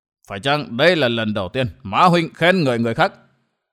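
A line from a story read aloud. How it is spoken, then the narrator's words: Angry sneering. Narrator (Vietnamese): Ma Huyết Vương tức giận cười gằn nói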